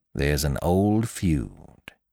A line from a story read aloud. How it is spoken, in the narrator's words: he said distinctly and slowly